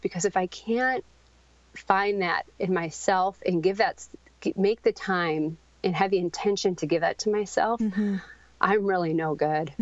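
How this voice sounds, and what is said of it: Shaky, emotional voice. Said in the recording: “sorry if my voice is shaking”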